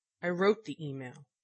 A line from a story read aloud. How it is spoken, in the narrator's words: Shepard snapped back